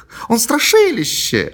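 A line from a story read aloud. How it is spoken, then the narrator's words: Exclaimed. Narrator (Russian): воскликнула Мэри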